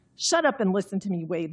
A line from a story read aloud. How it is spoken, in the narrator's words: Louisa snapped